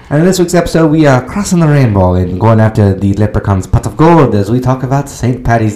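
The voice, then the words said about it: Bad put-on Irish accent. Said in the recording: “That is like one of the worst Irish accents I've ever heard.”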